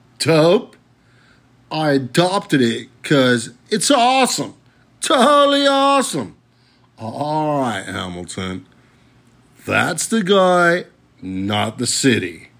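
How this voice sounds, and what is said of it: Unconvincing put-on American accent. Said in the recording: “I'm pretty sure that was not a genuine American accent”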